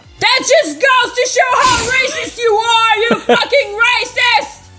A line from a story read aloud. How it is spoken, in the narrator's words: I yelled gloriously in a socialist voice